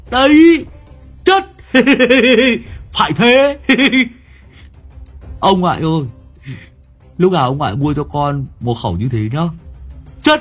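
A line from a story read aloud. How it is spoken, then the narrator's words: Shrieking. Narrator (Vietnamese): Thằng Chí Béo rú lên một tiếng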